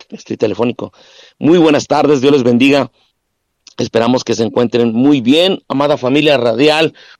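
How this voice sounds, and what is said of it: Hoarse, weak voice. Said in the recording (Spanish): “estoy afónico”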